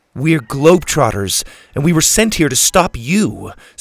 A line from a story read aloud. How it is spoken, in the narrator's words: Suzie barked